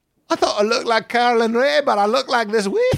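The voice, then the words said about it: Put-on Scottish accent. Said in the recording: “In a Scottish accent. ... if I'm doing a Scottish accent.”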